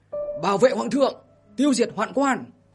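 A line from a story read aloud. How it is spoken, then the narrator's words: Hurried loud shout. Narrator (Vietnamese): Trường Sinh vội vàng vận khí hét lớn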